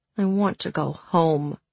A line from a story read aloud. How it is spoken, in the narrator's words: she muttered to her plate